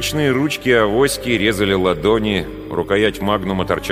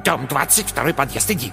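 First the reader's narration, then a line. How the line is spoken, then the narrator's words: Old woman's quick whisper. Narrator (Russian): Бабка быстро прошептала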